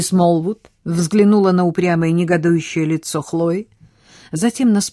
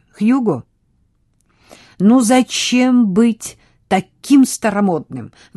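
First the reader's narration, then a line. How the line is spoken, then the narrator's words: Exclamation. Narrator (Russian): воскликнула Хлоя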